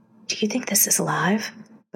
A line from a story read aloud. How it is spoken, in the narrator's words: Larry whispered